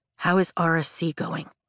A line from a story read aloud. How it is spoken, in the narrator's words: She asks, lowering her voice